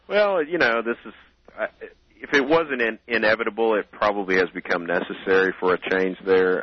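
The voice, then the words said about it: Arkansas accent. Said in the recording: “somebody with an Arkansas accent”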